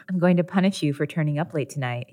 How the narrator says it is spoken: he whispered

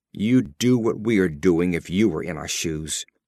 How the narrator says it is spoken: Burleigh said angrily

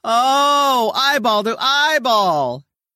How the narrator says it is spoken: broadcaster Bud Collins screaming

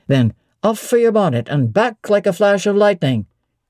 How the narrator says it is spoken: cried he

